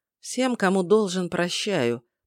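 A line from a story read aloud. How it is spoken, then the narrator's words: Muttering under breath. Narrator (Russian): пробормотал себе под нос я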